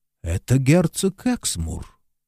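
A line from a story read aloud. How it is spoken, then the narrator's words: Small priest, quiet. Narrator (Russian): маленький священник тихо сказал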